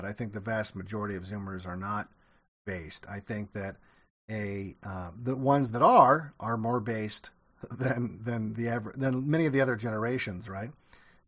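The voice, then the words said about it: Strained, fading voice. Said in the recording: “I'm going to go rest my voice. As you can hear, I'm kind of losing my voice”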